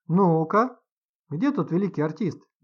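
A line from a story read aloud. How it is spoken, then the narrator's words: Cheerful grandfather question. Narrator (Russian): весело спросил дедушка Ваня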